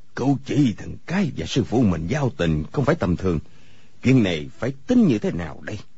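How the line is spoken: Pensive muttering to himself. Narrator (Vietnamese): Người câu cá trầm ngâm, lẩm bẩm một mình

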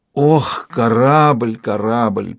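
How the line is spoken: Groaned. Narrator (Russian): простонал рядом с ней Брэшен

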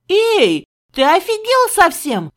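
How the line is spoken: Shouting. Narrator (Russian): крикнула я коту

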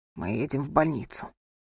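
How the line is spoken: Hoarse. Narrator (Russian): хрипло произнес он

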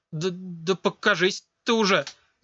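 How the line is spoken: Stammering. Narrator (Russian): Заикаясь, произнесла она

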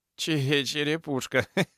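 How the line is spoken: Laughing young man. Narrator (Russian): засмеялся парень

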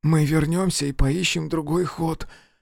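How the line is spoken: Hoarse objection. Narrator (Russian): хрипло возразил он

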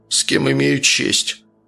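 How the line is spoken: Confused grumble. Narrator (Russian): буркнул сбитый с толку Архип

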